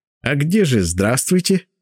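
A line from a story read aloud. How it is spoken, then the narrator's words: Laughing. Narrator (Russian): засмеялся ректор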